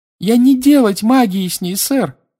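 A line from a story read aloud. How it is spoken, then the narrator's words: Shrill squeal. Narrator (Russian): взвизгнула Винки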